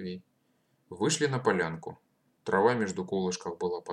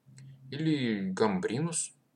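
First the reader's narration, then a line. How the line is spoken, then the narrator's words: Hesitant prompting. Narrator (Russian): неуверенно подсказал Матвей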